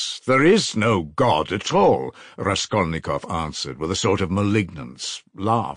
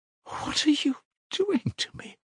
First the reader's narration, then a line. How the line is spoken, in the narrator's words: muttered, a sudden anguish clutched at her heart